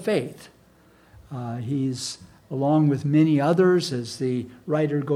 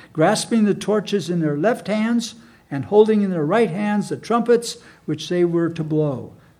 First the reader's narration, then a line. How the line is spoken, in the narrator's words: they shouted